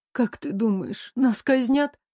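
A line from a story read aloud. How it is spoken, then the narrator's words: Trembling fearful question. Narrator (Russian): дрожащим голосом задала самый страшный вопрос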